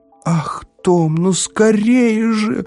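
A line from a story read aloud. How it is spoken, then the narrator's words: Shouting. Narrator (Russian): закричала Эвива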